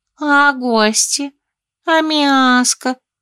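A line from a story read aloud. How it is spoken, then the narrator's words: Whiny drawl. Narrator (Russian): капризно протянула кошка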